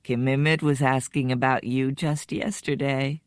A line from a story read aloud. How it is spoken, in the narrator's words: Father says to Shuku, and he softly clacks a laugh